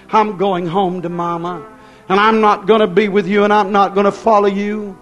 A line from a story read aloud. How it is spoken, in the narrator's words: holler